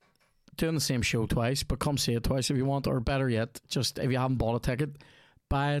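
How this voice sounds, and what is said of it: Usual voice. Nothing is said of it.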